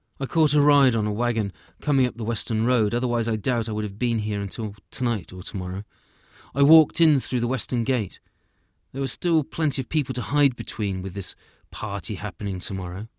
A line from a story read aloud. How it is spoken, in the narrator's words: the hunter said